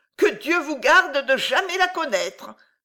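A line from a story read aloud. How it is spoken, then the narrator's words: Exclamation. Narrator (French): s'écria la roussotte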